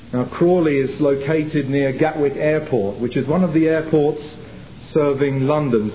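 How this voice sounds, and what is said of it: English accent. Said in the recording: “I come from England, as you may be able to tell from my accent”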